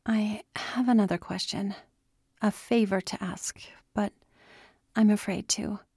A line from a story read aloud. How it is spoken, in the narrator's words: she said quietly